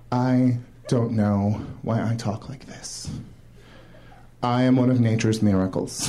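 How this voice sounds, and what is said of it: Stereotypically gay-sounding speech. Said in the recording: “Straight guys are very confused by the way that gay guys talk ... I don't know why I have this accent ... speaking gay”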